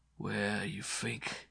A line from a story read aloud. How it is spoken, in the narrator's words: purred